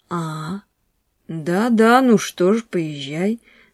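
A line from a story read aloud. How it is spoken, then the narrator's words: Gentle. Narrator (Russian): сказал мягко Рябовский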